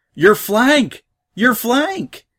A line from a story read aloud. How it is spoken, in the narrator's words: he shouted back